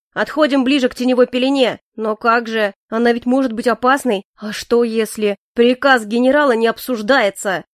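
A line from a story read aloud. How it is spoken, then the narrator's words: Barked. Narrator (Russian): гаркнул Моррис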